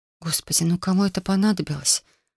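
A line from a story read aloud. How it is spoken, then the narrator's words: Whispered. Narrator (Russian): Прошептала я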